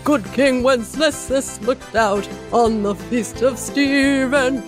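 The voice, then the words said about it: Imitates another person's voice, singing badly. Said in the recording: “sings Good King Wenceslas badly... such a great Hugh Grant impression”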